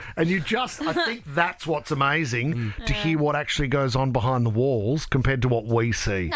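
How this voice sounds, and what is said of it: Usual voice. Nothing is said of it.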